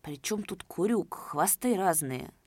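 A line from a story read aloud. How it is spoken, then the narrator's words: Quietly angry. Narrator (Russian): Давыдов начал тихо злиться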